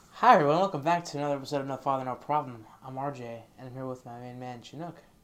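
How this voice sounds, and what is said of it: Stiff, overly formal announcer delivery. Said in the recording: “You sound like a fucking elevator ... just be yourself”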